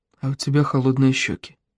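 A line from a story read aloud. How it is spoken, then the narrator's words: Whisper. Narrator (Russian): прошептал Тоби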